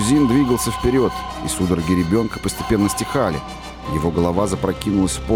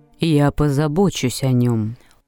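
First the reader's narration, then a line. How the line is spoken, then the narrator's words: Calm. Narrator (Russian): спокойно сказала миссис Бейлок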